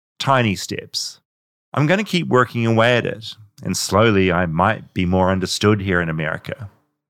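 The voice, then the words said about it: New Zealand accent. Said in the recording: “Maybe this Kiwi accent is part of what makes me, me. ... I just love the New Zealand accent.”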